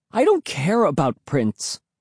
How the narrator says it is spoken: moaned

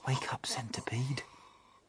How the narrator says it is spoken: whispered James

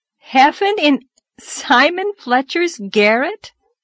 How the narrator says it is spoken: gasped Anne, too amazed even to laugh

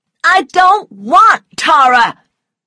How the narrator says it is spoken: cried Scarlet angrily

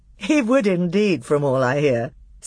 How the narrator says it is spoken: said Peter with a laugh

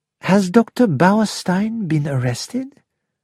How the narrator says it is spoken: Poirot asked calmly

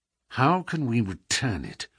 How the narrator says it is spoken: Holmes muttered

